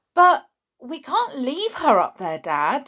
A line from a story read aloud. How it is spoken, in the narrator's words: said George